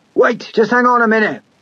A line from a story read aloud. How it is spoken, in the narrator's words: the old man shouted to Anders